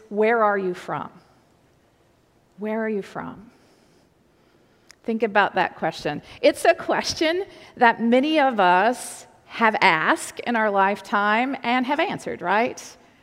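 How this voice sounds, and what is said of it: Slight Southern US drawl. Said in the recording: “my accent at times, you'll hear this, has a little bit of a draw to it. You'll hear that in certain words. ... are you from North Carolina? ... the dialect of North Carolina is real similar to parts of Virginia. The mountains of Virginia in the southwestern part of the state that I'm from, you get a little bit of a draw”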